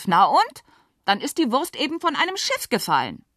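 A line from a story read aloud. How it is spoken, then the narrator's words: Near-tears shout. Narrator (German): Nathalie war dem Weinen nahe, rief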